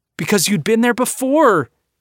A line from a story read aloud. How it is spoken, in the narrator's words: replies, shouting now himself